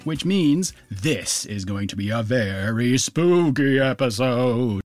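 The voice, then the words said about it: Attempted spooky voice. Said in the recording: “that's about as good as it gets for a spooky voice from me”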